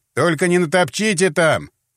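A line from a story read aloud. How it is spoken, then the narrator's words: Shouted. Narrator (Russian): крикнул криминалист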